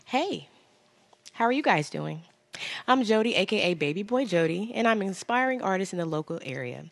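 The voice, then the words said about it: Put-on professional work voice. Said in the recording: “put on my professional voice ... It's my work voice.”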